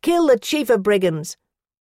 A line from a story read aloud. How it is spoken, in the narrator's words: They put their fists in his face and cried